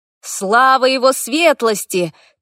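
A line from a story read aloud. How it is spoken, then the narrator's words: Crowd shouting. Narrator (Russian): кричали люди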